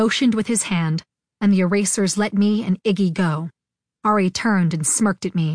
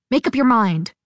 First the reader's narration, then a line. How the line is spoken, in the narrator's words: I snapped back